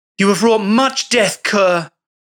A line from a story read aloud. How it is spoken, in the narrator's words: shouted